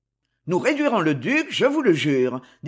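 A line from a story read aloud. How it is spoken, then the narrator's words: Strained, unsteady voice. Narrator (French): dit Concini d'une voix altérée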